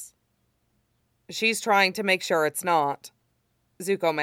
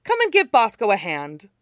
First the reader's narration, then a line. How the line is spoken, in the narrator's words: the Earth King said cheerfully